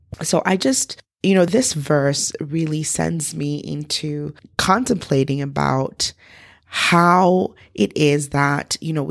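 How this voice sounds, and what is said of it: Rough voice from a chest infection. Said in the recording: “I apologize for my voice. I am recovering from a bronchial infection”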